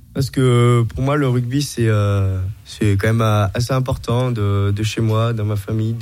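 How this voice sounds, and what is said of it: Slight regional French accent. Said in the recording (French): “ton petit accent qui vient pas du tout de Franche-Comté ... je viens de Bordeaux”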